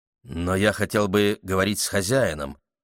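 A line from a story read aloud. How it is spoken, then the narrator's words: Muttering. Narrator (Russian): пробормотал молодой человек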